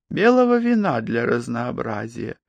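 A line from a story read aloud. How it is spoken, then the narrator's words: Pleasant-voiced offer. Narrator (Russian): предложила она приятным голосом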